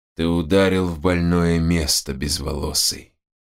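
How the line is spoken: Muffled hollow voice. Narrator (Russian): глухо проговорил он

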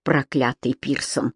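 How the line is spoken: Growl. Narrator (Russian): прорычал Кэмерон

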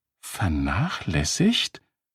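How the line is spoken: Whispering. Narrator (German): flüsterte Randy

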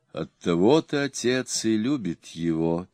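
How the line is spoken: Sad. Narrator (Russian): печально сказала Лак

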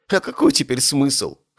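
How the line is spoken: Scoffing. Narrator (Russian): хмыкнул он

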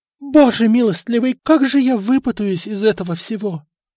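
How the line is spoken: Moaning. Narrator (Russian): простонала Мартина

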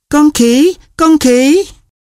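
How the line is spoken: Laughing cry. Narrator (Vietnamese): Một ai đó kêu lên vì không nín được cười

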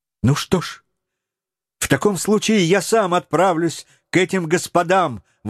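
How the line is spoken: Young man exclaiming. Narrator (Russian): воскликнул юный Роберт

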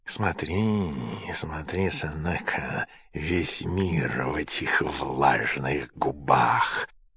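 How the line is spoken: Whispering. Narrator (Russian): шептал Нерон

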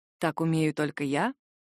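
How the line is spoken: Soft whisper in ear. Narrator (Russian): Тихо шепчет он мне на ухо

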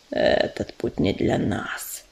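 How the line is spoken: Quiet creature hiss. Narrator (Russian): тихо зашипел звездоцап

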